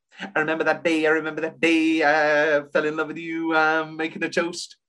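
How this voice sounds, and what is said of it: Impression of a Hamilton song. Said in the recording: “my impression of Hamilton”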